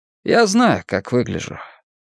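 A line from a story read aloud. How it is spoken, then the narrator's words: Calm. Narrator (Russian): Майк спокойно сказал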